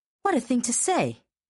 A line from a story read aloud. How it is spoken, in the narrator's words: Astrid exclaimed